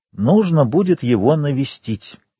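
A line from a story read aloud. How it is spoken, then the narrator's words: Plain. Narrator (Russian): сказал он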